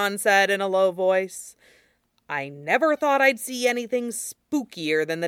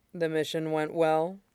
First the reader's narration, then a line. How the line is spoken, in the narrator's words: Bon asked, keeping his voice low